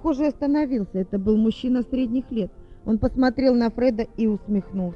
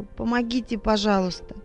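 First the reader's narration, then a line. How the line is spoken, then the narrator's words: Muttering. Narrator (Russian): пробормотал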